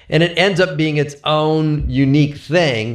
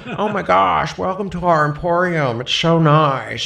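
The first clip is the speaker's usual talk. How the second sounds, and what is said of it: Bad imitation of another person's voice. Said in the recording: “I made a choice to do a really bad Owen Wilson ... My own Wilson's not very good ... I'm really terrible at this impression.”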